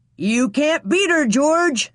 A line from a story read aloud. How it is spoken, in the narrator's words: somebody shouted